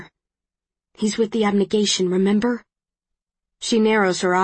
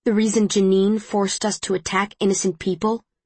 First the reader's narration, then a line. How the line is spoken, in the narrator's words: She says bitterly